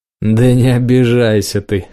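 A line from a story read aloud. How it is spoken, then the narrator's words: Words forced through laughter. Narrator (Russian): сквозь смех продавил из себя слова Руб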